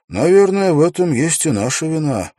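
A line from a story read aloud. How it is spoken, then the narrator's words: Sighing. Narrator (Russian): вздохнул Уилл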